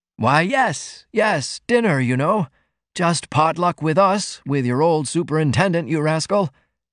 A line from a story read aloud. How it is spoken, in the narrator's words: he uttered nervously